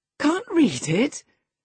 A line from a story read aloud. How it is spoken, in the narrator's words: cried Catherine